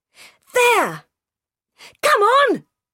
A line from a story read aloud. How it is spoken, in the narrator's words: shouted another voice